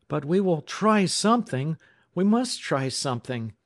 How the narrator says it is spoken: he cried

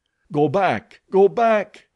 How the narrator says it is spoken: cried Korak

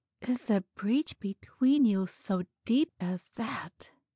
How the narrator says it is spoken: she said in a low tone, and more as if to herself than to him

